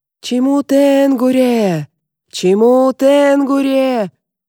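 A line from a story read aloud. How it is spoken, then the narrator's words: Hoarse yelling. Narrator (Russian): вопит твой отец севшим голосом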